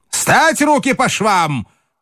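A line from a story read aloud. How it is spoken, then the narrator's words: Shouting. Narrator (Russian): крикнул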